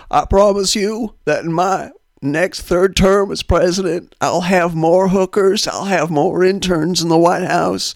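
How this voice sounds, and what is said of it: Bill Clinton impression. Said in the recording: “my Bill Clinton impression”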